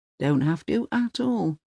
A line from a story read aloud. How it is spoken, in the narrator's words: he says